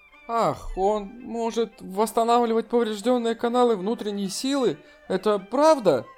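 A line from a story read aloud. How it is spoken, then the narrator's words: Excited interruption. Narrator (Russian): Сяо Лин Си взволнованно перебила его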